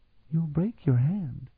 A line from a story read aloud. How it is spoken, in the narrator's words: Sophronia murmured